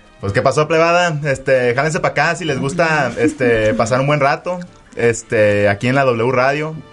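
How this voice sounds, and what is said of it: Sinaloan Mexican Spanish accent. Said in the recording (Spanish): “háblanos con tu mejor acento sinaloense”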